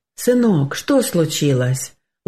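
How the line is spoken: Gentle question. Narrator (Russian): ласково спросил отец

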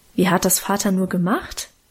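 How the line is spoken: Plain. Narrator (German): fragte ich

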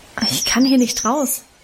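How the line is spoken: Plain. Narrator (German): antwortete ich

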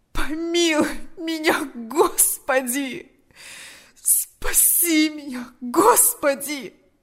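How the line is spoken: Moaning. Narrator (Russian): Застонал он

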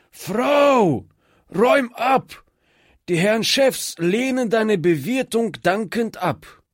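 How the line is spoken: Hoarse call. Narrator (German): rief mit heiserer Stimme

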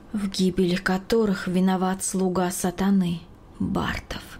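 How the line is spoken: Quiet, thoughtful repeating. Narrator (Russian): В задумчивости тихо повторяла

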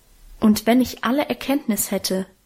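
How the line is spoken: Plain. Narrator (German): sagt der Apostel

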